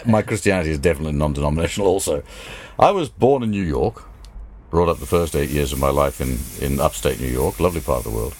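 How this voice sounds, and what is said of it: Hard-to-place mixed accent. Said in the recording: “your accent, for starters, is confusing. ... your accent definitely is.”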